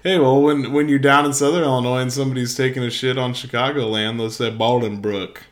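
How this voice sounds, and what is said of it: American Southern accent. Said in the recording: “Never heard anyone say Bolingbrook with a southern accent before.”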